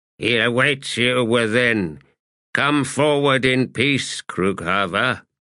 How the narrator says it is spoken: An old veteran replied in a toneless voice

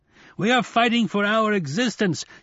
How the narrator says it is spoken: shouted a mouth in a pillar of glittering smoke

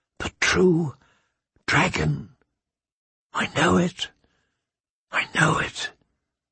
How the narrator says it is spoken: Danny whispered to him

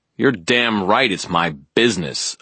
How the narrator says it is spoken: I spat

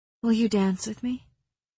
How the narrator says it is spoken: asked softly

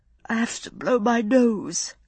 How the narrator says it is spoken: she said thickly

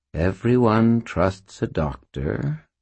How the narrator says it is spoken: purred Butters, in a tone of voice that Butters would never have used

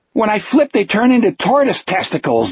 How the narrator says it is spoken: Jack said, and laughed wildly, hysterically

